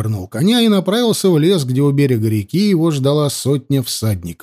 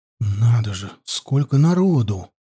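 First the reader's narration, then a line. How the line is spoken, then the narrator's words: Whisper. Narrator (Russian): прошептал Анил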